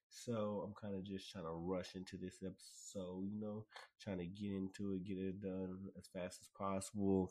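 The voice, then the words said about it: Sick, recovering voice. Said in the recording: “I was still sick then. My voice was gone. My voice is just starting to come back. You can tell this episode, I'm still sick... hear me cough, hear this voice right here”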